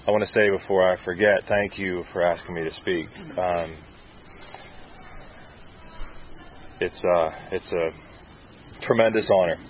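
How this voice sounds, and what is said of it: Emotional, choked-up voice. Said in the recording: “I'm a little emotional this morning.”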